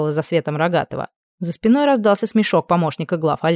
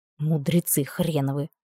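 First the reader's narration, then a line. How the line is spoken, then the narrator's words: Muttering under breath. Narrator (Russian): пробурчала себе под нос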